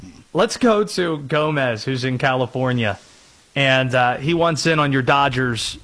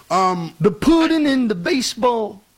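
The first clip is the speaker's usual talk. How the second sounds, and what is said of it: Imitates another person's voice. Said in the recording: “That was a Bill Cosby impersonation. Bravo.”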